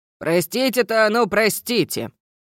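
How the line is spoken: Stern teacher. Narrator (Russian): продолжил строго преподаватель

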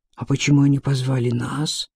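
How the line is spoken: Whispered reply. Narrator (Russian): отозвался Ци также шепотом

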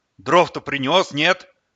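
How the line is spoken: Barking. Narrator (Russian): рявкнула тетка

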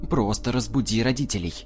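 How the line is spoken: Irritated female repetition. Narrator (Russian): раздраженно повторила

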